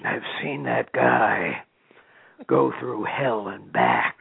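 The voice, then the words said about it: Impression of Jake Roberts. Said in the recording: “my Jake imitation ... A little Jake Roberts imitation there”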